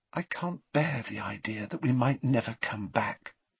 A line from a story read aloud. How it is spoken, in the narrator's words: she said softly